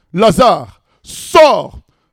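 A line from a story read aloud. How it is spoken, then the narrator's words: Loud shout. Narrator (French): Jésus crie d'une voix forte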